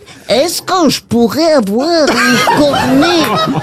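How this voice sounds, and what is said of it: Put-on Belgian French accent. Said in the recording (French): “faire l'accent belge”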